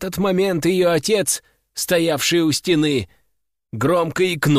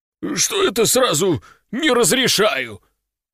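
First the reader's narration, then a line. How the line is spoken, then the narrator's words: Sudden strained utterance. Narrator (Russian): Вдруг выдавил из себя отец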